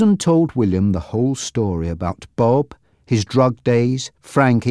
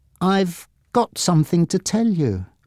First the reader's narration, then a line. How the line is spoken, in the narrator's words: she began nervously